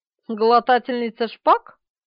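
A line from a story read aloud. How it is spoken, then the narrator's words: Grumbling. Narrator (Russian): проворчал он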